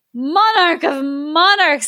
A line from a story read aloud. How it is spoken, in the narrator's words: he cried